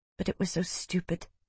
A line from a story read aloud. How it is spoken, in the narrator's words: she whispered